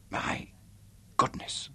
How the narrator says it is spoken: she whispered throatily

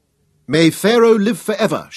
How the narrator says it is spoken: shouted Lord Tunnus

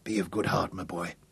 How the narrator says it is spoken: he said softly from the corner of his mouth

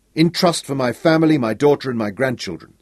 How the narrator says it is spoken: said Ronnie, his voice edged with desperation

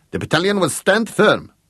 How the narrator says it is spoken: he snapped

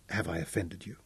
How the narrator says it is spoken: asked softly

